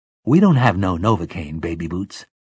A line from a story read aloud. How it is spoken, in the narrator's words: Detta Walker said